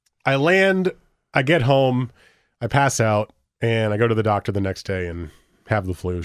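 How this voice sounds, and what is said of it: Ill, flu-affected voice. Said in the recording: “I'm back and not fully there, as you can tell from my voice probably”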